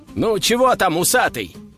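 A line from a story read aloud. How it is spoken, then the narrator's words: Shouting. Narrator (Russian): снова крикнул Костя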